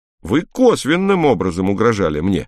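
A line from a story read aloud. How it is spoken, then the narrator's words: Excited exclamation. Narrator (Russian): возбужденно воскликнул Хрущев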